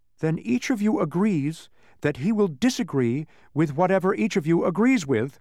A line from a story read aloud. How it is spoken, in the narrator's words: said Milo triumphantly